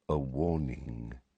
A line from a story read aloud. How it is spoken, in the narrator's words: Dumbledore said very quietly